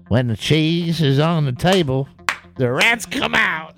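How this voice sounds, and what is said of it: Put-on southern American accent. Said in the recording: “I don't know if he's got a southern ... anyone who uses a cheese analogy automatically gets that accent, even if they're from Boston”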